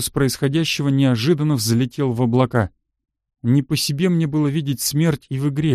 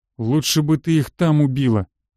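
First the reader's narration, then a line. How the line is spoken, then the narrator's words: Through gritted teeth. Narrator (Russian): процедил Медведев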